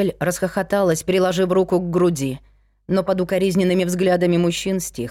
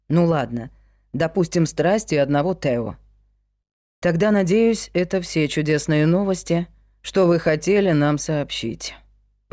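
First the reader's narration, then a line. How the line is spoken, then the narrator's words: Gloomy. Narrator (Russian): мрачно сказал Вик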